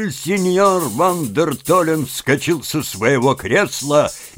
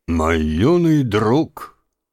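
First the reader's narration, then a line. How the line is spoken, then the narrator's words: Solemn old man. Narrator (Russian): торжественно произнес старик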